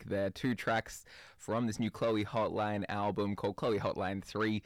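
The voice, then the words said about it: Australian accent. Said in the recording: “It doesn't really work with the Australian accent.”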